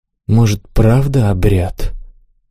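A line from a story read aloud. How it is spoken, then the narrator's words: Sighing. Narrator (Russian): вздохнула жаворонок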